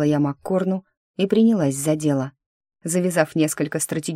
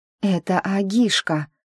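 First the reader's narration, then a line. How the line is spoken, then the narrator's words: Breathless exhale. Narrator (Russian): выдохнула я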